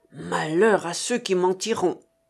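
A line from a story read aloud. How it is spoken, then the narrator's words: Growling. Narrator (French): gronda Chéri Bibi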